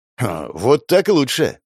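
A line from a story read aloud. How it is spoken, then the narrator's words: Amused snort. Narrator (Russian): Я хмыкнул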